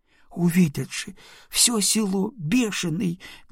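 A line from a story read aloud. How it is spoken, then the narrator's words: Moaning. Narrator (Russian): Не просила, а стонала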